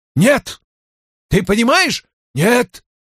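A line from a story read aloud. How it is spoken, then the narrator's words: Shouting. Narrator (Russian): выкрикнул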